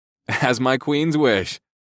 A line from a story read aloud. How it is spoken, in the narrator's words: I chuckled